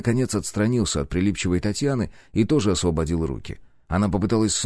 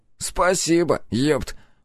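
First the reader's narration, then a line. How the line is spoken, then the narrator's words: Breathless exhale. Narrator (Russian): выдохнул нос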